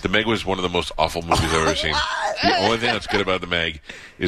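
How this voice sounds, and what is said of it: Usual voice. Nothing is said of it.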